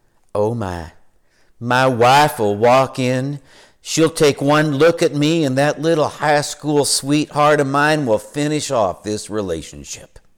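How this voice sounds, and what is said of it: Southern US accent. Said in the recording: “He's from the South, so he had a Southern accent.”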